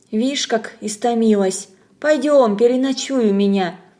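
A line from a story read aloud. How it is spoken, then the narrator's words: Gentle, kind. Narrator (Russian): колхозница ласково говоря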